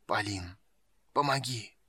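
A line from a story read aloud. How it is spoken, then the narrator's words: Pained whisper in the mind. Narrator (Russian): Голос, пронизанный болью, шептал в сознании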